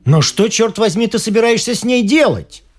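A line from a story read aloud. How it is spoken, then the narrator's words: Shouted. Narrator (Russian): выкрикнул Филипп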